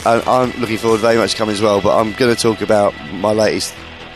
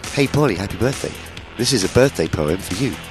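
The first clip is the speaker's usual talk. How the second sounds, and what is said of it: Imitates another person's voice. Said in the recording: “That's how he talks. ... a great accent, yeah.”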